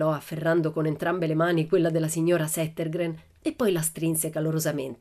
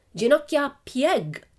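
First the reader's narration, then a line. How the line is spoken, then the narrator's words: Shouted. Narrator (Italian): gridò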